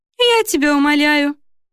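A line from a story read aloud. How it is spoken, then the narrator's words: Cheerful. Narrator (Russian): весело отозвался Риут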